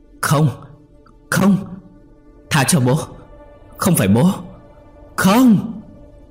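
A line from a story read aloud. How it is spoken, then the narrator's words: Hysterical screaming. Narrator (Vietnamese): Chí gào thét đến lạc giọng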